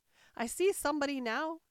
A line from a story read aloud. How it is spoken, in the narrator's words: she exclaimed at last